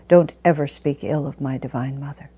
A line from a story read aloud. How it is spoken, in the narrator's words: Master drew himself up and very sternly said